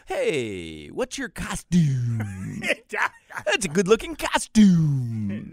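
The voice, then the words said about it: Put-on accent. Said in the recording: “Now you're adding accents.”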